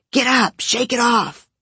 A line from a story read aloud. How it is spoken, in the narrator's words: your parents screaming